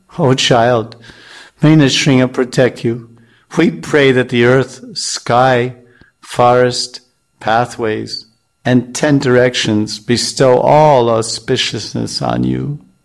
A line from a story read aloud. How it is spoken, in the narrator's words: In faltering voices, his parents exclaim